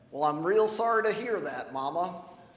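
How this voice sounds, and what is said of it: Poor attempt at Southern drawl. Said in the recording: “I'm gonna attempt some Southern drawl here. It's not going to go well ... And I know, it's bad.”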